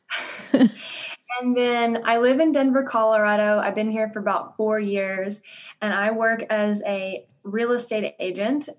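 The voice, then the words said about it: Southern US drawl. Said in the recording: “I'm originally from Louisiana. So if you hear a southern drawl, that is, you are hearing it.”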